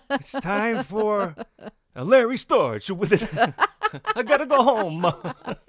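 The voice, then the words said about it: Exaggerated Italian accent. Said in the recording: “A terrible, offensive Italian accent.”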